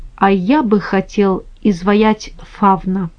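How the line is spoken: Said quietly. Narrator (Russian): Микеланджело тихо сказал

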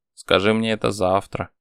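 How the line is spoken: Dismissive snort. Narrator (Russian): хмыкнул Марат

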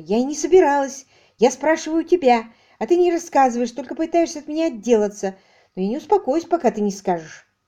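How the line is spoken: Indignant answer. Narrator (Russian): Она ответила возмущенно

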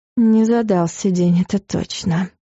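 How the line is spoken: Exhale. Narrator (Russian): выдохнула Луиза

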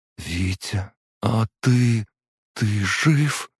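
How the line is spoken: Trembling voice. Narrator (Russian): спросила она дрожащим голосом

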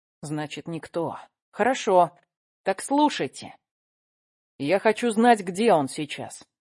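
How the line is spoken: Clipped, measured. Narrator (Russian): отчеканила Акела

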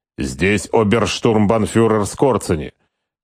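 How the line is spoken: Clipped, syllable by syllable. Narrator (Russian): Почти по слогам отчеканил Отто

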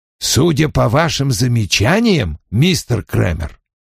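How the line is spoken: Snorting. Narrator (Russian): хмыкнул Вульф

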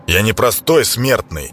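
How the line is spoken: Harsh bark. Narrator (Russian): Рявкнул Клейдом

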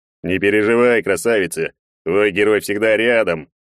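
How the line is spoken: Proud deep bass. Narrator (Russian): гордо пробасил Егор

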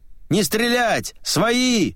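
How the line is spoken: Shouting in chorus. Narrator (Russian): закричали хором

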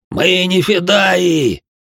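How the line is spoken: Sudden yell through pain. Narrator (Russian): внезапно заорал сквозь крики боли тот, что оскорблял меня раньше все время

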